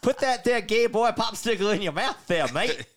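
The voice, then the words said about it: Mixed Australian and cowboy accent. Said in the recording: “Oh, now you're mixing accents... I'm not sure if you're like a cowboy... or...”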